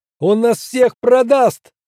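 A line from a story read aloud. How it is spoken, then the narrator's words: Shouted. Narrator (Russian): крикнул он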